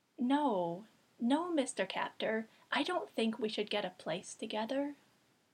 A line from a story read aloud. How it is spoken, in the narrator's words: said gently